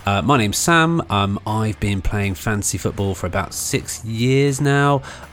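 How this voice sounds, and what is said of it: British accent. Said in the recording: “as you probably guessed from the accent, I'm a UK-based NFL fan”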